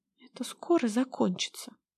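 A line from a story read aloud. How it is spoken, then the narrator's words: Whisper to herself. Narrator (Russian): прошептала себе под нос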